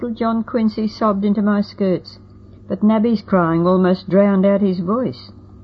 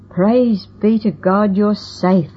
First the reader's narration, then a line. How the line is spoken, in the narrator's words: I cried